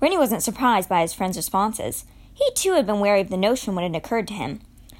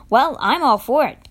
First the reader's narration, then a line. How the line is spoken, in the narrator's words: Constance said with a snort